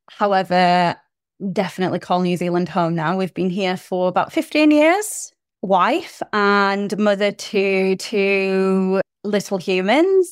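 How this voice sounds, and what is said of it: British accent. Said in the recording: “I am originally from the UK, as you can tell by my accent.”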